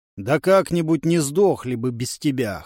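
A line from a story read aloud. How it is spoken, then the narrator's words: Dismissive snort. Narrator (Russian): хмыкнул Ленард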